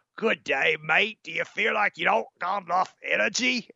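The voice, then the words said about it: Deliberately bad Australian accent. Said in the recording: “the Australian ... that's the worst Australian accent I've ever heard ... So I started the show with an Australian accent.”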